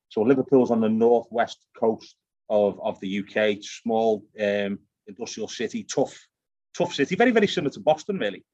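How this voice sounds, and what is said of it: Liverpool English accent. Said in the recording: “It sounds like you got a Scottish or a Australian accent there... I'm born in Liverpool in the UK, so it's a Celtic accent. It's a mixture of Irish and Scottish.”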